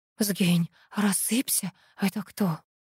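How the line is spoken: Muffled whisper. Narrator (Russian): Аллочка уткнулась в плечо и прошептала

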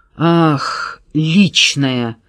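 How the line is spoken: Through gritted teeth. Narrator (Russian): процедил Зубков

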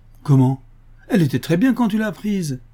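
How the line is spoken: Indignant exclamation. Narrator (French): s'écrie-t-il indigné

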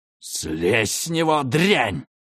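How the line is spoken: Old woman hissing. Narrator (Russian): Старуха зашипела

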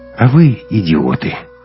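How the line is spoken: Calm, openly disappointed. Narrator (Russian): совершенно спокойно и с нескрываемым разочарованием сказал Эйем

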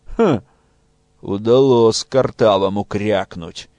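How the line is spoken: Displeased grumble. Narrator (Russian): недовольно пробурчал Кулотка

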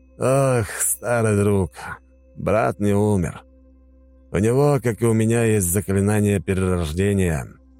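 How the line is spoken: Sighing. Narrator (Russian): вздохнул

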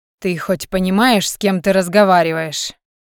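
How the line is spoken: Menacing hiss. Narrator (Russian): Угрожающе прошипел он

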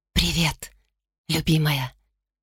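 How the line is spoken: Whisper. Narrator (Russian): шепнула Тунува

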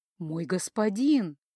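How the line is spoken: Tender cooing. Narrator (Russian): нежно проворковала она

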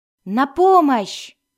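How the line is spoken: Shout from behind wall. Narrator (Russian): крикнул Келнос из-за разделяющей их сталагмитовой стены

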